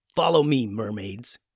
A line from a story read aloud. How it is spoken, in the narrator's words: growled